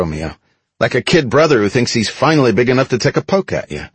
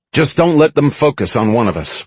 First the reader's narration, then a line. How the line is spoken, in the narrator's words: Romeo said